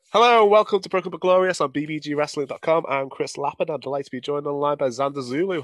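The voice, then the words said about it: Slightly rough, sore-throated voice. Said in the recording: “I've got a bit of a sore throat, so if I clear my throat a bit”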